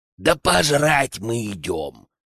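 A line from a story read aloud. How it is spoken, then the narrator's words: Strained barking whisper. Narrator (Russian): Не выдержал Генка, рявкнув натужным шепотом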